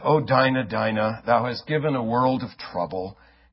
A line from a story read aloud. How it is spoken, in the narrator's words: He heaved a deep sigh and said